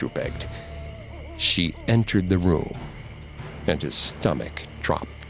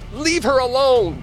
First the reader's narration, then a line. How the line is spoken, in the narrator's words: Andrew called out